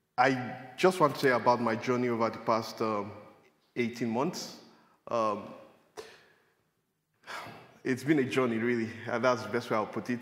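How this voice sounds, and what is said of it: Strong accent, speaking slowly. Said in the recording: “I'll try to speak slowly so that my accent will not, you know, make me unintelligible”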